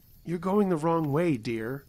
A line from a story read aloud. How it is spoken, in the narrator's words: almost dreamily